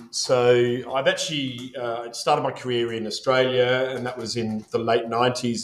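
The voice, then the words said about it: Faded Australian accent. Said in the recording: “the Australian accent or what's left of it”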